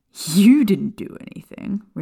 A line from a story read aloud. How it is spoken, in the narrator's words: Remus scoffed incredulously